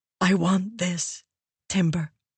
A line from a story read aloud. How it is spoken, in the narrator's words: whispered, wiping her eyes